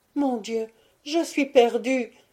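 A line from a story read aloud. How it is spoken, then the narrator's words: Crying out, moaning. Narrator (French): s'écria Isabelle en gémissant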